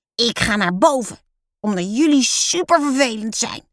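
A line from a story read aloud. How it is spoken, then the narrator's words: Bellowing. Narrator (Dutch): brult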